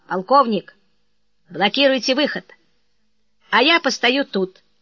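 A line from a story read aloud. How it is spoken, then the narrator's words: Commanding tone. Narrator (Russian): Умышленно преувеличивая звание друга, командным тоном произнес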